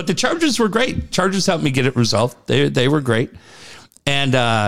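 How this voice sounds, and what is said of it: Usual voice. Nothing is said of it.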